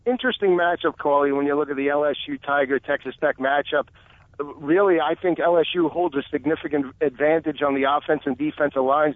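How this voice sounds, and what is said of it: Noticeable non-Louisiana accent. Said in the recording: “You are obvious with your accent. You're not from Louisiana”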